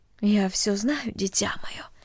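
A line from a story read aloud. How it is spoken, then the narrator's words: Quiet, mother. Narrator (Russian): тихо сказала мать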